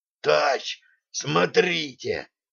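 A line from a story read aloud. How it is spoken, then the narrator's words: Hoarse rasp. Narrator (Russian): прохрипел матрос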